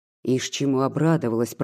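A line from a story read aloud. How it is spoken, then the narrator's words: Grumbling. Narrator (Russian): проворчал Прокофий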